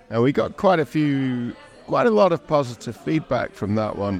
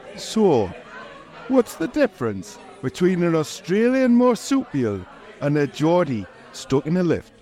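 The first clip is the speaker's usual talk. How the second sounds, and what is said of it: Put-on strong Geordie accent. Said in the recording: “you have to read this out in a strong Geordie accent ... in my strong Geordie accent”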